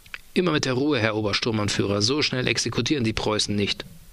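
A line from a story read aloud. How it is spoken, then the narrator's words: Plain. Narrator (German): sagt er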